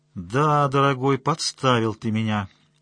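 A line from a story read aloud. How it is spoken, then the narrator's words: Displeased tone. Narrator (Russian): сказала Настя недовольным тоном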